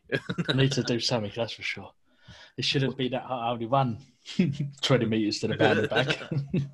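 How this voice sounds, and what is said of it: Out of breath, panting speech. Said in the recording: “I'm literally out of breath.”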